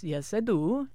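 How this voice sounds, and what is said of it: Attempted Swedish accent, sounds Italian. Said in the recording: “He's Swedish. ... just getting the accent. ... he's gone very Italian now.”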